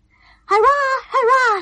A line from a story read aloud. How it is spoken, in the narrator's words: shouted the guests